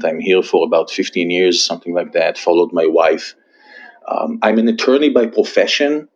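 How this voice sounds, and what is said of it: Israeli-accented English. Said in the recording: “I was born and raised in Israel. You can probably still hear it from my accent.”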